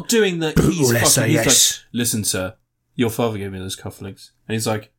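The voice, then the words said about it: Imitated East End London accent. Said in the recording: “He's doing doing the East End accent thing.”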